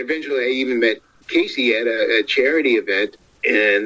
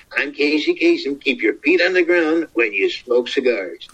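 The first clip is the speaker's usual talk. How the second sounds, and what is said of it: Casey Kasem impression. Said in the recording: “I threw out doing Casey Kasem ... Casey, I do your voice.”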